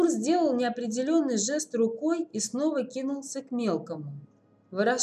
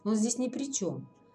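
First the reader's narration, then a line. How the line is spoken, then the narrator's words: As gently as possible. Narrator (Russian): как мог мягко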